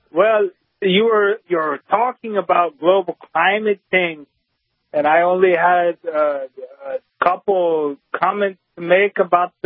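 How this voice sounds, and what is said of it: Clear New Hampshire accent. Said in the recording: “That's a New Hampshire accent. ... New Hampshire accent. That's remarkable how clear it is.”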